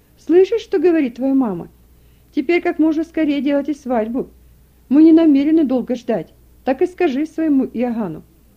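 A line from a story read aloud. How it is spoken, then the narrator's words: Smiling exclamation. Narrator (Russian): Одна из соседок с улыбкой воскликнула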